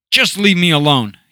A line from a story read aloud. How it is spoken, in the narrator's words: he blurted out